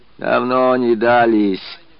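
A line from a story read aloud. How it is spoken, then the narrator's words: Grumbling. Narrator (Russian): ворчала дворничка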